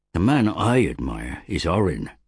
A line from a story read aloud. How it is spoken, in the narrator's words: said Bregan